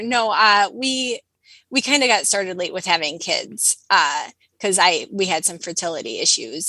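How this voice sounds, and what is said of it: Distinctive accent, mature-sounding cadence. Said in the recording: “you sound like my grandmother ... there's something about this specific accent ... you have like a more mature cadence”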